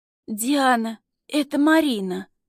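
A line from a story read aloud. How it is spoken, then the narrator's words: Hoarse young woman. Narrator (Russian): хрипит девушка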